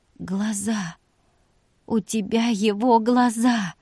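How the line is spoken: Hoarse, pained whisper. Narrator (Russian): Вика хрипло с болью прошептала

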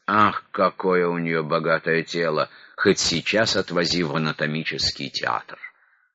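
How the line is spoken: Disappointed, dejected voices. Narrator (Russian): разочарованные россияне говорили уныло

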